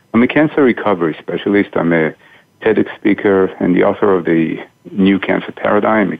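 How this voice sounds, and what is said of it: Israeli accent. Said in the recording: “those listeners who can kind of pick up on my accent will know I'm not originally from here. I'm originally from Israel.”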